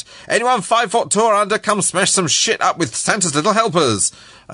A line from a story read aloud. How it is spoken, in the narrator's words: He started to shout